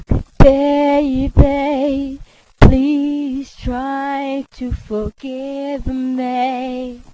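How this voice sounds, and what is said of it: Imitates another person's voice. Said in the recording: “my impression”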